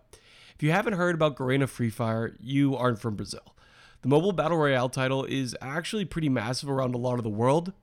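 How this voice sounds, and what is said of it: Slightly hoarse voice. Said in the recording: “I'm a little bit hoarse, and I'm not exactly sure why”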